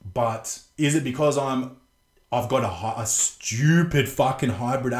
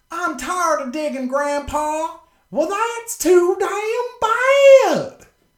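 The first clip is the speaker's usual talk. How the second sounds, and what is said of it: Put-on Southern American accent. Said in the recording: “does that understand Southern accents? Because Southerners will make one syllable words two syllables”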